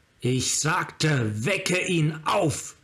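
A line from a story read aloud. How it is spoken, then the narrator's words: Scream. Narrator (German): schrie Tasigur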